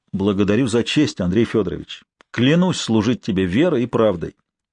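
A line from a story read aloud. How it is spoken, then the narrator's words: Firm voice. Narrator (Russian): Ольгерд твердым голосом произнес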